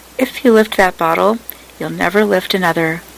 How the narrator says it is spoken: Brown said calmly

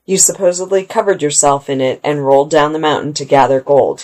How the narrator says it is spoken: he said

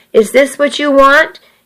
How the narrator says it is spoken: he asked a bit angrily

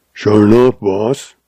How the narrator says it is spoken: growled Grizzly

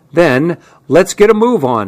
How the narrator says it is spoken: he cried

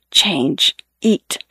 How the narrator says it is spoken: he whispers

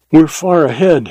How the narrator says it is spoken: panted

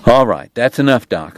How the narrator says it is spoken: Morgan said

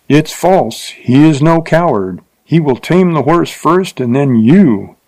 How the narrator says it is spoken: cried a voice so close

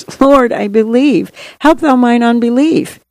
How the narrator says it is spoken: the father of the child cried out and said with tears

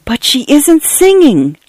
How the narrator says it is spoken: Cynthia whispered in shock and horror

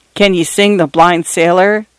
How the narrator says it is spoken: asked Singing Johnny

